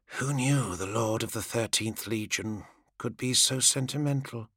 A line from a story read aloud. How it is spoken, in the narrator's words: She breathed the words through strings of blood-pinked saliva